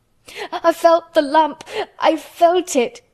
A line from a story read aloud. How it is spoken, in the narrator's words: choked out Colin